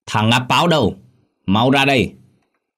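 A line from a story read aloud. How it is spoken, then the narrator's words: Loud booming voice. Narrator (Vietnamese): một thằng mồm miệng oang oang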